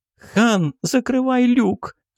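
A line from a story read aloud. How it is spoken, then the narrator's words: Sobbing squirrel. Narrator (Russian): всхлипнула белка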